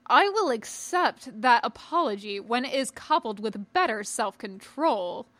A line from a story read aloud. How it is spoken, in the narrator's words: Chaboth replied haughtily